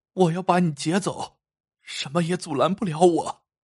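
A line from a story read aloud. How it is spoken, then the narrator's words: Choked, tearful. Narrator (Chinese): 黑影哽咽着说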